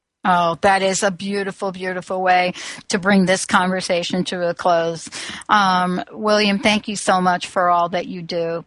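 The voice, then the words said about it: Bronx New York accent. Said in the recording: “that accent ... you're right on about the accent. You know, imagine me being born in the Bronx, New York”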